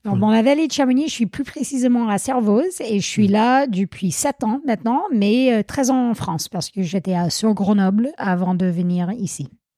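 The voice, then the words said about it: Slight American accent in French. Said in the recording (French): “On entend que tu as un petit accent. ... je viens des États-Unis, l'État du Vermont”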